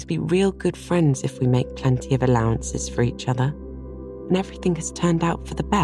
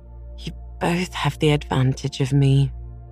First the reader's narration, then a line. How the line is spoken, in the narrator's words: sighed Anne